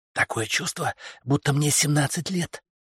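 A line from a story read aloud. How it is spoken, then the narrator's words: Whisper. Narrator (Russian): прошептала Бернадет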